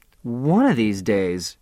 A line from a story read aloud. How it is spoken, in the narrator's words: she sighed